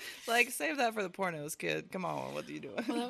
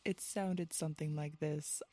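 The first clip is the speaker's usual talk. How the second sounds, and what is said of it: Put-on soothing sexy podcast voice. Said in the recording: “I tried to have a podcast voice ... I thought that it would be soothing ... put on this like sexy voice”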